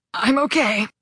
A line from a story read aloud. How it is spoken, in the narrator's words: I croaked